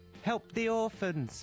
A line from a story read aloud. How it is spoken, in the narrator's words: he yelled